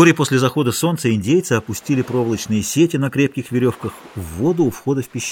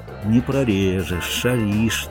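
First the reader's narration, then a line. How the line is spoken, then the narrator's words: Quiet, absorbed. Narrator (Russian): тихо сказал Бальтазар, увлеченный охотой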